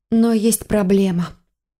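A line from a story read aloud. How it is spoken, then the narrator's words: Sighing reply. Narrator (Russian): ответила, снова вздохнув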